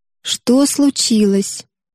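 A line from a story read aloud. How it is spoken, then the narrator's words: Soft question. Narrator (Russian): мягко спросила Юдора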